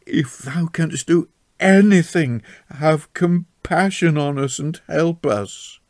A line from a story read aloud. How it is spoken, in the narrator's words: cried in sudden entreaty